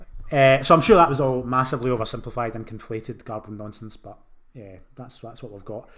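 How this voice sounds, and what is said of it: Scottish Glaswegian accent. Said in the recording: “being Scottish in this town ... it's tough trying to live with a Glaswegian accent in this town ... no one understands a word I'm saying”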